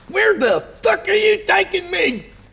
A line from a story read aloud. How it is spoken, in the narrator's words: Kyle shrieked